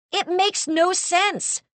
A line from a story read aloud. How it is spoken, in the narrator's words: Marnie shouted